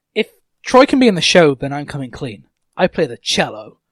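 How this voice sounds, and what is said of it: Deliberately awful put-on American accent. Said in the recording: “It's the only things I can say in an American accent... Prepare for it being totally awful”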